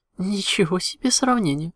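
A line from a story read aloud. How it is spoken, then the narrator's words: Laughing. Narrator (Russian): рассмеялась Луна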